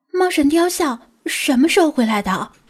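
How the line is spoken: Hushed startled exclamation. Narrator (Chinese): 小声惊呼道

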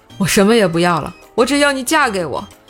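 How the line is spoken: Repeated shouting. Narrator (Chinese): 他还不停地喊道

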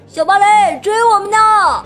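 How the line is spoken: Shouting, fading away. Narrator (Chinese): 他们喊叫着跑远了

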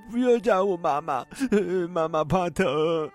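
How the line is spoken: Crying child pleading. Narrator (Chinese): 小男孩哭着阻拦

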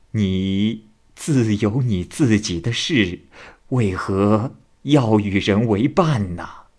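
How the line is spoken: Smiling. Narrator (Chinese): 岳仲笑着说

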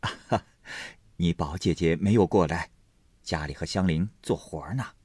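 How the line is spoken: Laughing. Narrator (Chinese): 薛姨妈笑道

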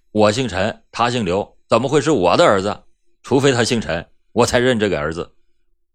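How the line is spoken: Cold reply. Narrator (Chinese): 陈文忠冷冷的回答道

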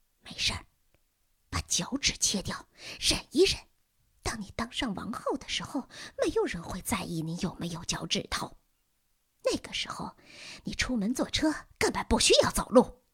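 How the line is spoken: Mother whispering in ear. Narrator (Chinese): 母亲在他的耳边低声说

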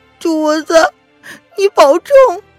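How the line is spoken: Amused. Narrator (Chinese): 凌渊好笑的说

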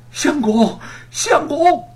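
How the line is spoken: Desperate loud wailing. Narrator (Chinese): 玉凤眼见吴承恩就要被杀死，便大声的哭喊

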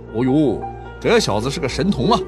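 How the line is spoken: Admiring exclamation. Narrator (Chinese): 老师们 不得不感叹

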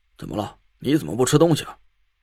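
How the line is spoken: Low question. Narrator (Chinese): 王才低声问我

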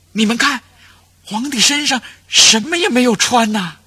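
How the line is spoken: Child's startled cry. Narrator (Chinese): 有一个孩子惊叫起来

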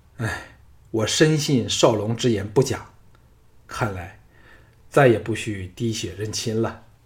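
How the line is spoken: Sighing. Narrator (Chinese): 叹了一口气，续道

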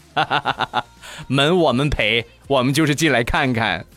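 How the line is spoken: Group laughing. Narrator (Chinese): 一边笑一边说

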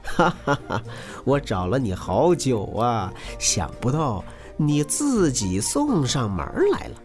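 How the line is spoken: Gleeful laughing hunter. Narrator (Chinese): 猎人乐得哈哈大笑，对狐狸说

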